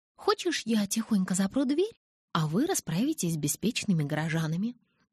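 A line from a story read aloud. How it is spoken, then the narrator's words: Conspiratorial whisper. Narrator (Russian): заговорщицки зашептала я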